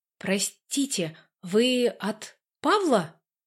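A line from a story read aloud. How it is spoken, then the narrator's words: Hesitant, slightly stammering. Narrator (Russian): Я слегка запинаюсь перед именем будущего мужа сестры, так как к своему стыду больше никакой информации о нем не располагаю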